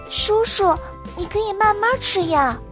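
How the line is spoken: Soft, quiet. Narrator (Chinese): 糖糖小声地说道

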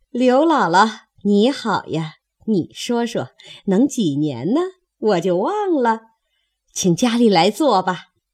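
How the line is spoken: Laughing. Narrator (Chinese): 周瑞家的方笑道

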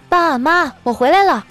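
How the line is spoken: Habitual casual greeting. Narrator (Chinese): 白英英……习惯性的说了一句

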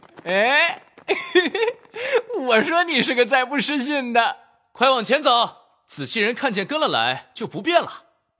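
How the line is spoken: Delighted, hurried laugh. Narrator (Chinese): 如获奇珍，忙笑道

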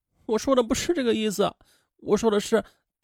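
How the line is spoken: Crying. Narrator (Chinese): 王娜还是哭

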